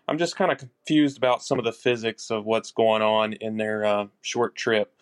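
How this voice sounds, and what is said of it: Speaker with a noticeable accent. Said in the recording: “lovely to hear your voice with that fabulous accent”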